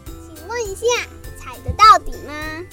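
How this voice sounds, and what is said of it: Small mouse voice, speaking quietly. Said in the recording (Chinese): “小老鼠小小声地问”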